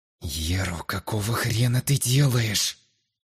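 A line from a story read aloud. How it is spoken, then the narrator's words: Hissed. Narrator (Russian): Прошипел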